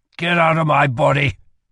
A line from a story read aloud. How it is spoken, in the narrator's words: he growled